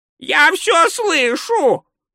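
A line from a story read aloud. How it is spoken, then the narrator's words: Shrieked. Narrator (Russian): провизжал Спольд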